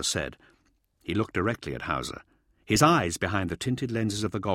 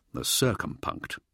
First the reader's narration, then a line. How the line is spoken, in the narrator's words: Hauser replied quietly